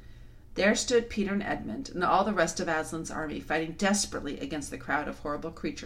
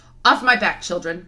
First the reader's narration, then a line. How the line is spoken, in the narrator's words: shouted Aslan